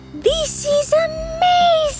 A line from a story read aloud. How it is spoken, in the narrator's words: Soki cries as he maintains his balance and surfs the sand